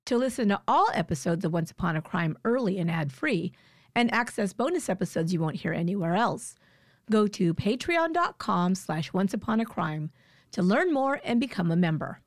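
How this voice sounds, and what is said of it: Scratchy, slightly smoky voice. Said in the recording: “my voice is still a little scratchy ... I had laryngitis ... it really is still affecting my vocal cords. So I sound a little bit smoky or something”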